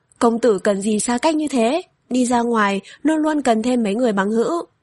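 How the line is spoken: Anxious smiling woman. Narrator (Vietnamese): phụ nhân này cũng rất nóng lòng, mỉm cười nói

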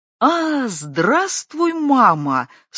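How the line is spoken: Daughter's exclamation of recognition. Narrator (Russian): словно узнав ее, наконец, воскликнула дочь

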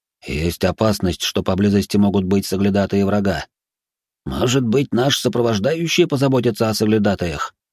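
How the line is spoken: Old man, low voice. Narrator (Russian): вполголоса ответил старик

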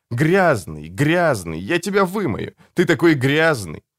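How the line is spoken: Laughing, repeating over and over. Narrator (Russian): Снова, снова, все смеясь, смеясь, твердя

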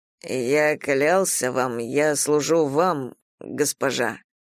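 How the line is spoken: Muffled voice. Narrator (Russian): глухо сказал

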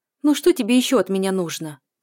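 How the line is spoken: Angry question. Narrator (Russian): спрашивает зло

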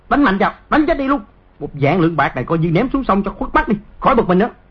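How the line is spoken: Guard barking. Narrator (Vietnamese): Một tên thị vệ quát

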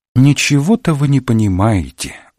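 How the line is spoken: Sigh. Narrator (Russian): вздохнула она

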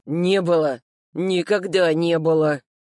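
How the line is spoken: Muttered through clenched teeth. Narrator (Russian): процедил я сквозь зубы

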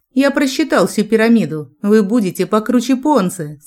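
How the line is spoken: Plain. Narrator (Russian): сказал Джек

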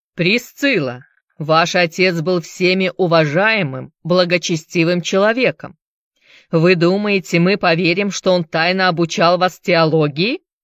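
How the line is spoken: Clipped harsh speech. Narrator (Russian): отчеканил жестким тоном пастор

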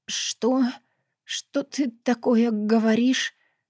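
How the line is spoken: Strained, forced out. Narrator (Russian): выдавила она, когда смогла говорить

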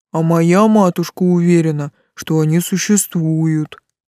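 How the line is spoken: Deep booming voice. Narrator (Russian): прогудел Тессел

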